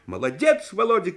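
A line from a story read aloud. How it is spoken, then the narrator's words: Shouted. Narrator (Russian): крикнул Оля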